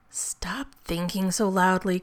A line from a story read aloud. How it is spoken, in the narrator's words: groaned Rodney